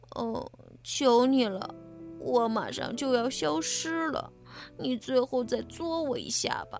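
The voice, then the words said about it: Tiny, weak, feeble voice. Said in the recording (Chinese): “茧子用细小又虚弱的声音说道”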